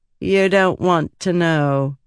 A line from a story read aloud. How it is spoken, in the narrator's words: she said, her tone curiously flat